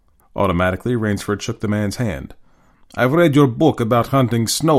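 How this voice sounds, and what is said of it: Usual voice. Nothing is said of it.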